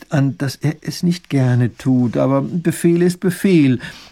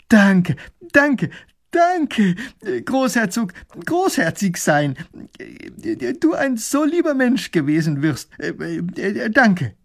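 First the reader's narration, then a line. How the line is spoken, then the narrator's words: Calling out. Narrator (German): Er ruft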